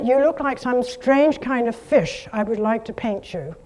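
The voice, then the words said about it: Put-on British accent. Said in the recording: “I'm giving her a British accent.”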